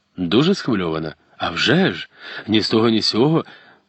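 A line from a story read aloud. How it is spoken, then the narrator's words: Animated exclamation. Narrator (Ukrainian): Пожвавившись, вигукнув Пелінг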